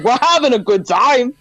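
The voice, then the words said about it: Bad Christopher Walken impression. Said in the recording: “That's my bad impression.”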